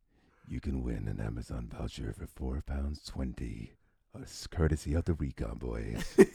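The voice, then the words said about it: Exaggerated sexy voice. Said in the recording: “do it in your sexy voice? As sexy as you can ... It was tingling my ears.”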